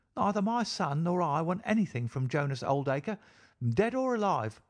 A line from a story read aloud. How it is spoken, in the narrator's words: she cried with a proper spirit